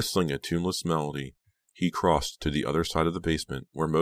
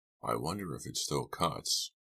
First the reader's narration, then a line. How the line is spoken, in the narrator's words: Farberson murmured more to himself than to his prisoners